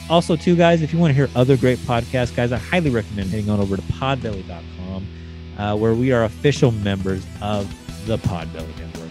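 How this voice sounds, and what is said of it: Tired, worn-out hoarse voice. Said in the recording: “I am extremely tired. My voice is shot from doing pretty much 5 hours of podcasting in the last 24 hours.”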